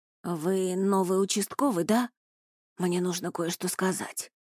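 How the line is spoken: Hoarse. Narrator (Russian): сипло проговорил он

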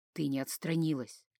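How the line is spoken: Hot whisper in ear. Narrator (Russian): обжег ухо горячий шепот

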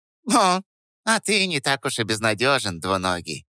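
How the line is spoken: Squeaky. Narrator (Russian): пропищал

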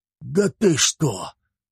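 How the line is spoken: Stunned whisper. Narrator (Russian): прошептал он и больше ничего сказать не мог

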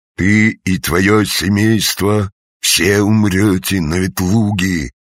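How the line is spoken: Sepulchral voice. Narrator (Russian): сказал замогильным голосом

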